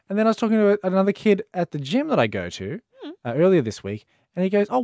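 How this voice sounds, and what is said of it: Australian accent. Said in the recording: “Australian accent. I've born and raised in Australia.”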